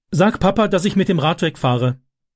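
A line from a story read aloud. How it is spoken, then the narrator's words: Called out. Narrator (German): rief er Wendy zu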